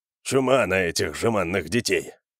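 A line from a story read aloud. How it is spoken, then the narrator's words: Muttered under breath. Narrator (Russian): пробормотал себе под нос Джаренс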